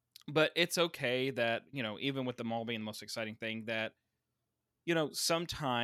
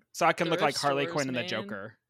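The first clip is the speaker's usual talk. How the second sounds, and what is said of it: Imitates another person's voice. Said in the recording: “that was my best impression of Meg”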